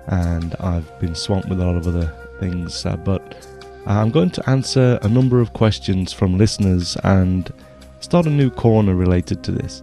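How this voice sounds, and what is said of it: Voice with a slight cold. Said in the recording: “I've got a bit of a cold”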